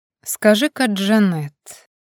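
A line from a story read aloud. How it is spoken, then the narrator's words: Insinuating question. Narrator (Russian): вкрадчиво поинтересовался он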